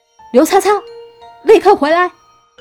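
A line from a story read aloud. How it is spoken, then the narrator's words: Loud scolding. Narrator (Chinese): 大声的喝骂声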